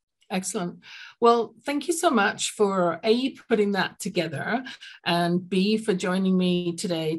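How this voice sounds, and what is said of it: London English accent. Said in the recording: “I grew up in London, England, as you can tell from my accent”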